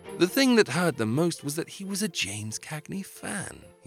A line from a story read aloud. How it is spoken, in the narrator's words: he sighed